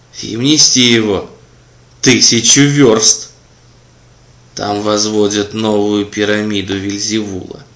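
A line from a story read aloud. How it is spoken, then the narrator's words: Plain. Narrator (Russian): сказал дьявол-хранитель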